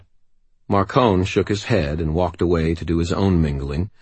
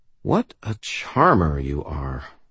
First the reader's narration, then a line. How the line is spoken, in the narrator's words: Susan murmured